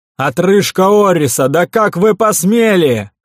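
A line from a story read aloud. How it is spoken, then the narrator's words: Strained yell. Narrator (Russian): заорал надсаживаясь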